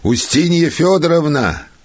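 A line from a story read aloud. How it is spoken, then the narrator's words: Loud shout. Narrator (Russian): крикнул он громким голосом своей жене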